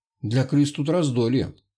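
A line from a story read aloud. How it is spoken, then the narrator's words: Gloomy. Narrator (Russian): мрачно проговорил Малкин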